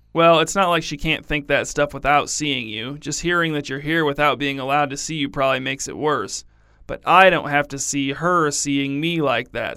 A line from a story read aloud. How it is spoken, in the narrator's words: said Simone